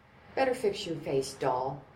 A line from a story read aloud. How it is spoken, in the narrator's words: the waitress suggested in a kind voice